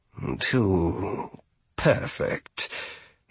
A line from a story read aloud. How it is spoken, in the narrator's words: he mumbled